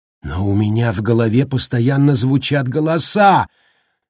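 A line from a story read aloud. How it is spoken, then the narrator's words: Shouting. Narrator (Russian): закричала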